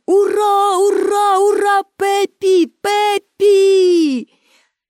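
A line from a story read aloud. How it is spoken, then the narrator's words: Crowd shouting. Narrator (Ukrainian): І всі глядачі також закричали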